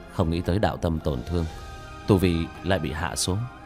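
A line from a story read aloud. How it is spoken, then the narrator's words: Muttering. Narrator (Vietnamese): lẩm bẩm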